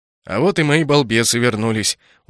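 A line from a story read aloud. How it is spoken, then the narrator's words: Satisfied snort. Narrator (Russian): удовлетворенно хмыкнул Дензел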